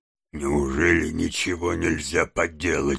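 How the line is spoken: Hoarse question. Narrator (Russian): хриплым голосом спросил

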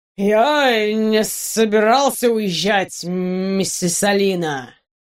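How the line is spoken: Slurred drunken drawl. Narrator (Russian): Заплетающимся языком протянул Ватсон

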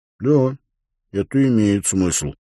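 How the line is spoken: Dejected mutter. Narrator (Russian): уныло пробормотал Уилл

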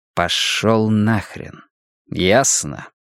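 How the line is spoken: Slow, deliberate. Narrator (Russian): медленно выговорил Риттер

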